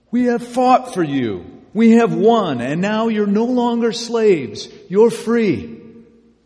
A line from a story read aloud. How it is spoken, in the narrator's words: they yelled